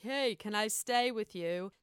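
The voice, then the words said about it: Badly done put-on accent. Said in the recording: “That's a really terrible accent”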